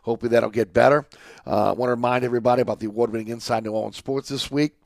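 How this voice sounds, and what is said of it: Slightly impaired, strained voice. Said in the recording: “Pardon my voice, having a little issue with my voice here.”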